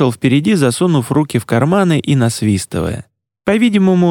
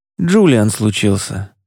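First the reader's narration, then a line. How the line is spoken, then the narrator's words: Grumbling. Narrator (Russian): проворчал он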